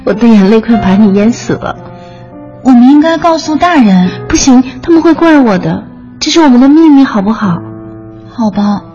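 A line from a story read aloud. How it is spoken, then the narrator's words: Forced smile. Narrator (Chinese): 他挤出微笑说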